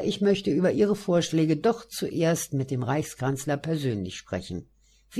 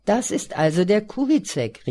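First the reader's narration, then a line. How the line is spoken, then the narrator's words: Beaming, joyful call. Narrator (German): rief er freudestrahlend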